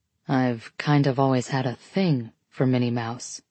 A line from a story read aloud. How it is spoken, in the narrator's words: he says quietly